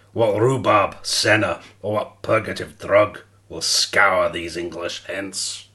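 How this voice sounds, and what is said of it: Poor put-on Scottish accent. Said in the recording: “do you want to just do it with a Scottish accent? ... my so Scottish good. Accent is shocking.”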